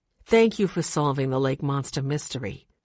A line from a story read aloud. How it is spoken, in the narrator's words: she said softly